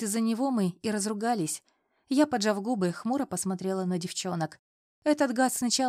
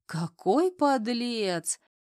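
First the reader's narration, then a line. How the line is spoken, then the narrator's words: Guffawing. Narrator (Russian): захохотала Ирка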